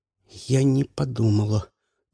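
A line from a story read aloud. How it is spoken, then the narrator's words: Quiet. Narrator (Russian): тихо сказала Люси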